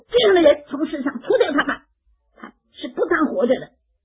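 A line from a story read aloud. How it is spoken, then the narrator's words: Angry crowd shouting. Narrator (Chinese): 这些人就是怒气填胸了，他们就高声说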